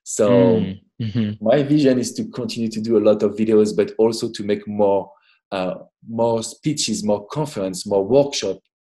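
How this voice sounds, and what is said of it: Strong French accent. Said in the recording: “I still have strong French accent”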